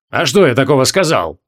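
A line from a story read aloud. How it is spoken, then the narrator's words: Snort. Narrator (Russian): хмыкнул Хабокин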